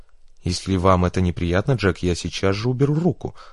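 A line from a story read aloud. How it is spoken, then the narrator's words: Plain. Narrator (Russian): сказала девушка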